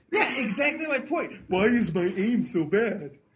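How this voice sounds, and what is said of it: Barney the dinosaur character voice. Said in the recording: “Is that just a Barney impression? ... I think it was a little bit of voice.”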